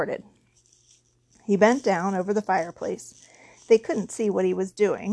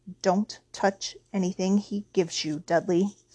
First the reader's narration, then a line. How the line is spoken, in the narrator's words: Uncle Vernon said sharply